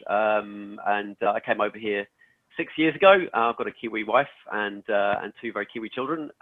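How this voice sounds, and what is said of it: English accent. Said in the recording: “as you can probably hear from my accent, I'm English”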